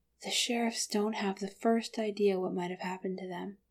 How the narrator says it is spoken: Bilbo warned quietly

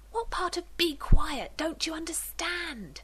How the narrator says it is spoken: Rodney hisses

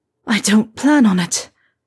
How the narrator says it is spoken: Harry said, gasping

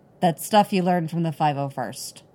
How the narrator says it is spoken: he says stiffly

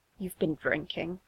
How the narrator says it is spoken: he mutters, more to himself than to Ed

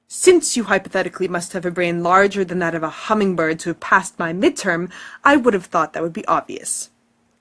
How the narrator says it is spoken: he snaps

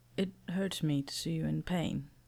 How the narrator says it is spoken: he says faintly

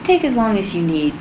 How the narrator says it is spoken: Cadman said firmly

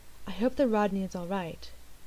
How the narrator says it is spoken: She said, very softly

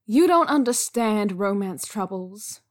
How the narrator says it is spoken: Wei Ying sighed

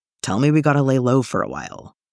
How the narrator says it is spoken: Zeb growls

